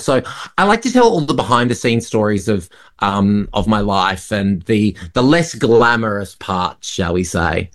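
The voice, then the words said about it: Australian accent. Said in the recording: “Australia, obviously, your home country, because we can hear that from the accent”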